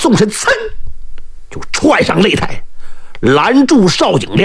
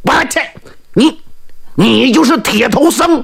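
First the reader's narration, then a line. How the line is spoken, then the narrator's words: Angry. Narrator (Chinese): 邵景亮是怒火满胸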